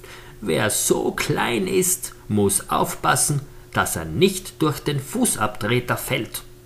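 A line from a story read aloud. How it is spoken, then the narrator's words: Laughing raven. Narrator (German): meinte der Rabe … vor Lachen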